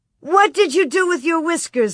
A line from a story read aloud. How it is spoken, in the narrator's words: Laura cried